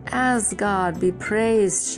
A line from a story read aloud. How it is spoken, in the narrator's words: she cried